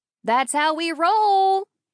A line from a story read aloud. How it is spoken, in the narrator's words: Amelia hollered at the top of her lungs